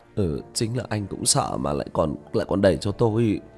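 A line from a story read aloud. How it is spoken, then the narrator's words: Sulky mutter. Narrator (Vietnamese): Tiểu Lý bĩu môi lẩm bẩm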